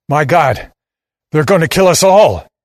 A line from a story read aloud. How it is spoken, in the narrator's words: he shouts